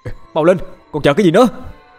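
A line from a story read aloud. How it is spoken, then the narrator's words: Angry shout. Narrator (Vietnamese): Cậu Điền nổi giận quát lên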